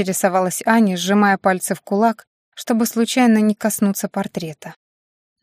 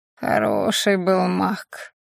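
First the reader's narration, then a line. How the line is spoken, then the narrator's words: Familiar creaky voice from behind. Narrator (Russian): знакомо проскрипели у нее из-за спины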